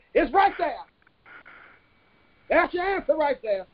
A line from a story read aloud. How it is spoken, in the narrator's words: The duo, who couldn't hold themselves anymore, shouted